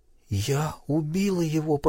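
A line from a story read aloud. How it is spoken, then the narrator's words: Breathless whisper. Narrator (Russian): прошептала, тяжело дыша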